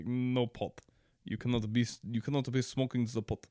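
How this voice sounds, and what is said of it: Russian accent. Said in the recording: “bad Russian accent”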